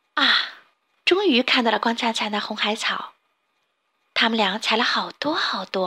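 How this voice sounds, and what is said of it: Usual voice. Nothing is said of it.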